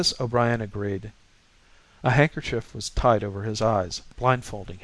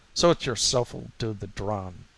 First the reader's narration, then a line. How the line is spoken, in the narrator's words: the latter sneered to O'Brien